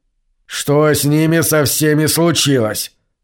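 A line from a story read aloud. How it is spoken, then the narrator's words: Angry, to himself. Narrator (Russian): злобно спрашивал себя Джендер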